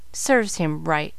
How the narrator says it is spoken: muttered Jack with a frown

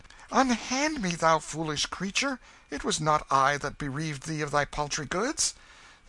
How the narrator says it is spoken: The king cried out in vexation

